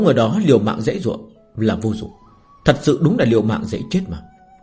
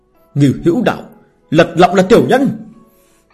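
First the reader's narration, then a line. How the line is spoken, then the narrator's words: Shouting. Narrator (Vietnamese): Vừa la lên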